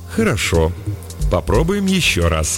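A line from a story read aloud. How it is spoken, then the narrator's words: Very calm. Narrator (Russian): сказал Эреймик спокойнейшим тоном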